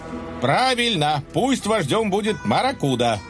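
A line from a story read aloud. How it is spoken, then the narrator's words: Desperate sly yell. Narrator (Russian): Желая спасти свою шкуру хитрец заорал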